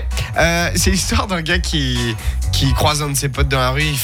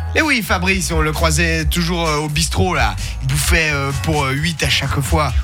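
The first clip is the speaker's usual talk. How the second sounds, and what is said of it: Put-on southern French accent. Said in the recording (French): “C'était un accent du sud. ... j'ai cru que c'était québécois.”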